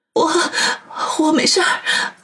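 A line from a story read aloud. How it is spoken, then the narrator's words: Choked, tearful joy. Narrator (Chinese): 他喜极而泣，泪眼婆娑，哽咽的说道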